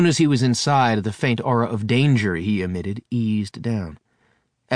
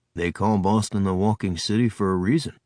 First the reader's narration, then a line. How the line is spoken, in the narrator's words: Charles rumbled